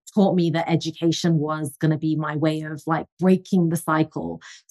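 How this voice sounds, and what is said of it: English accent. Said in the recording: “I'm originally from England, as you can tell from the accent”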